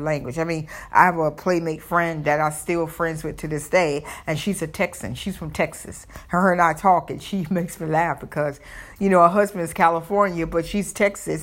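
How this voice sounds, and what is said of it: Southern American accent. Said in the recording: “I have my Southern accent”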